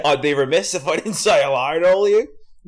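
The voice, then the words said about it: Put-on Australian accent. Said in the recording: “That's all I got, an Australian accent”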